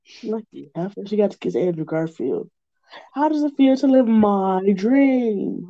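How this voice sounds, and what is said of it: Spontaneous put-on accent. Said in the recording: “Where's the accent come from? I don't know, but I felt it coming on, so I just went with it.”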